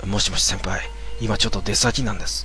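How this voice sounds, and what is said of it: Speaking in a quiet voice. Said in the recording (Japanese): “小声で”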